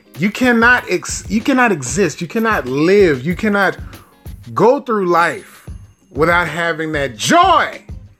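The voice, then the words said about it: Yelling. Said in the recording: “I know I'm yelling”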